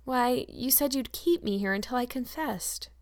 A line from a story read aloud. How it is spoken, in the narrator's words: returned Anne wearily